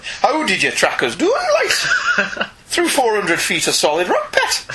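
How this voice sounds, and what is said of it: Attempted Geordie accent, not quite right. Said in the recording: “I can't do Geordie ... an accent that fails me ... That was a little bit better ... you're in the direction of Geordie”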